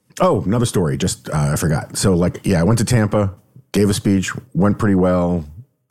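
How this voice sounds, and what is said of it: Hoarse, fading voice. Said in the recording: “I'm losing my voice, as you can tell”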